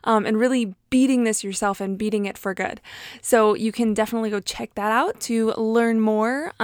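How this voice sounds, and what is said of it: Breathless, out of breath. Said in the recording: “Whew, regardless, I'm out of breath.”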